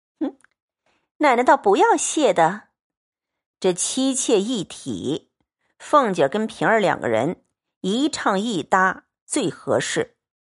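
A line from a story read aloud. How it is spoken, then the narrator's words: Laughing. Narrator (Chinese): 平儿在一旁笑道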